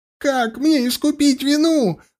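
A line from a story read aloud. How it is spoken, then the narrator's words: Shrieking, barely controlled. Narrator (Russian): Взвизгнул он, едва владея собой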